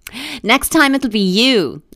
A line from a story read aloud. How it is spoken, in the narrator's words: a disembodied voice called out